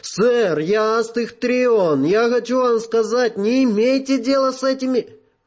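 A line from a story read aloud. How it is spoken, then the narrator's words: Shouting. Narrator (Russian): Один из техов крикнул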